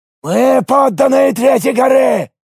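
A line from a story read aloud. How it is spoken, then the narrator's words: Shout. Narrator (Russian): закричал мне Альвис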